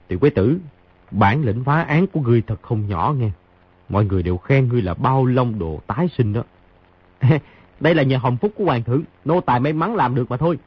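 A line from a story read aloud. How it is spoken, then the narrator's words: Soft chuckle. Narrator (Vietnamese): Khang Hy cười khẽ một tiếng nói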